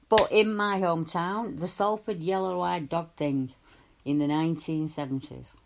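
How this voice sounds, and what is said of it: Thick regional accent. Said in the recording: “I'm sorry if my accent gets a bit thicker”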